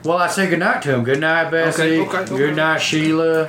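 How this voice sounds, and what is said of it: Put-on farmer character accent. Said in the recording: “Look at my accent.”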